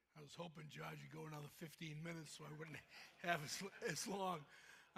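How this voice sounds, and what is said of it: Thick Boston accent. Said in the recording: “Red Sox fan, thick Boston accent”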